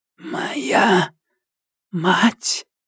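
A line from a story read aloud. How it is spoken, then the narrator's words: Barely audible broken whisper. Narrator (Russian): еле слышный прерывистый шепот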